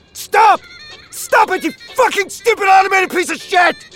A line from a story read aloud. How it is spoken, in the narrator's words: He was shrieking